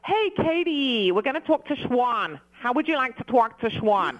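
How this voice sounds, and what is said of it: Unconvincing put-on New York accent. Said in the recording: “let me hear you do your New York accent ... I definitely can't do a New York ... it's not real, but it's funny ... you as a Brit trying to do a New York”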